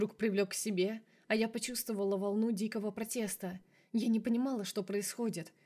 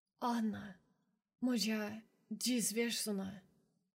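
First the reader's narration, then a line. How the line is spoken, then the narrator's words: Whisper in Polish. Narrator (Russian): шептал по-польски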